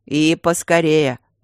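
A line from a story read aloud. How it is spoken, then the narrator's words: Growling. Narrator (Russian): рыкнул Свенсон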